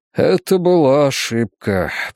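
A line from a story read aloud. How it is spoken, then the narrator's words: Muttering. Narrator (Russian): пробормотал он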